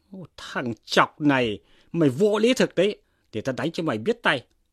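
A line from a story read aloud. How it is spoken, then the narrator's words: Angry shout. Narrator (Vietnamese): Dương Chí tức mình quát lên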